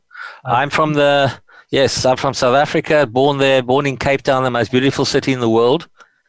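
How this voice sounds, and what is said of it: South African accent. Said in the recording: “you're from South Africa by your by your accent.”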